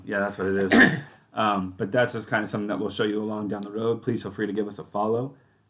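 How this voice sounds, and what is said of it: Nervous voice cutting in and out. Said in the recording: “my voice is kind of going in and out ... we know you're nervous”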